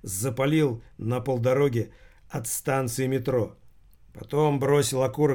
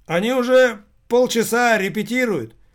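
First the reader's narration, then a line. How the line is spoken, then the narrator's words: Startled shout, school caretaker. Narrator (Russian): Словно очнувшись, прокричал ему вслед школьный сторож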